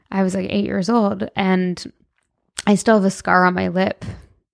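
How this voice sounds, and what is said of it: Emotional voice. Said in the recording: “why am I getting emotional?”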